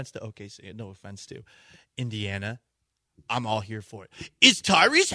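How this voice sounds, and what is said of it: Usual voice. Nothing is said of it.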